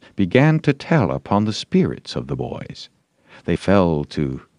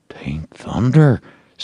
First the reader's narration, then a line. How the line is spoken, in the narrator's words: said Huckleberry in an awed tone